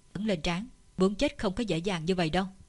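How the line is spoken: Cold, grim. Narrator (Vietnamese): Sắc mặt Chu Từ Hàng lạnh lùng, âm trầm, nói

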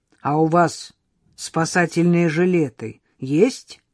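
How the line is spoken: Stern question. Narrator (Russian): строго поинтересовался Егор

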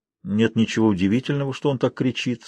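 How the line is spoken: Calm. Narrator (Russian): спокойно сказала она

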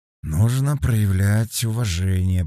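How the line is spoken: Drawling. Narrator (Russian): протянул Феликс

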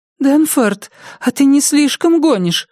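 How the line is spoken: Frightened babble. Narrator (Russian): испуганно пролепетала Миртл

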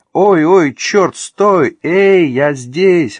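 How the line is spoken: Shouting. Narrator (Russian): она закричала

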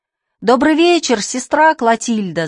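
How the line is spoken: Boys shouting. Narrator (Russian): закричали мальчики

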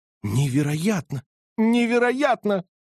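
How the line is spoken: Exclaiming. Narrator (Russian): воскликнул полковник

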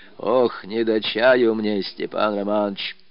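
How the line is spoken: Dejected tearful old man. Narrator (Russian): старик проговорил упавшим голосом, в котором слышались слезы

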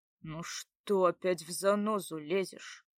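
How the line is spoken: Muttered gruffly. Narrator (Russian): буркнул

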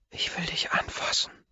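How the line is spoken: Hoarse whisper. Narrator (German): flüstert mit heiserer Stimme

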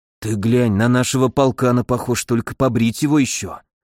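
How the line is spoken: Whispered. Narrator (Russian): шепотом поделился Миша

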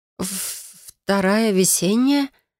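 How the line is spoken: Uncertain re-asking. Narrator (Russian): Переспрашиваю неуверенным тоном

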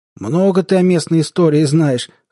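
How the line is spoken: Skeptical grunt. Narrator (Russian): хмыкнул тот в ответ

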